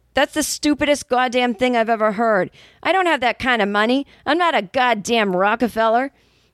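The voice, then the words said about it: Thick New York accent. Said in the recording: “in a thick New York accent said”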